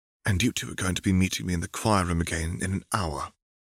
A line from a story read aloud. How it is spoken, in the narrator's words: Nova whispered to Harry and Othniel